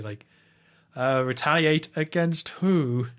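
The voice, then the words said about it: Smarmy Doctor Evil-like villain impression. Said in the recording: “he says it's so smarmy ... you got a very good impression of him ... It's very Doctor Evil.”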